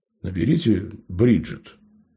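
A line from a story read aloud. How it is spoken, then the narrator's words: Calm reply. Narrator (Russian): спокойно ответил Лоренс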